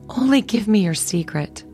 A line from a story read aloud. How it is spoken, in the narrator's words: she begged